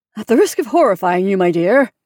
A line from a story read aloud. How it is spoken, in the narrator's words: added with a slight laugh